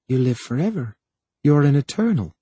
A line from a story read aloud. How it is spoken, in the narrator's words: She said softly